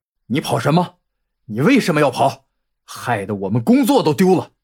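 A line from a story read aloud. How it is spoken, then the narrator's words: Angry roar. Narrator (Chinese): 熊军愤怒的吼叫声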